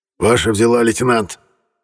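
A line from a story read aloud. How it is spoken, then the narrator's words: Hoarse communicator voice. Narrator (Russian): прохрипел коммуникатор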